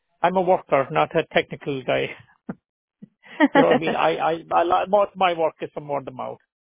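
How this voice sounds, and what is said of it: Speaks with a noticeable accent. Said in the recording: “the accent is throwing you off”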